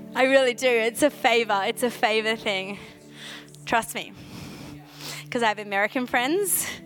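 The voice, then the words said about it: Australian accent. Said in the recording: “there's a favor on my accent ... I still sound so Aussie”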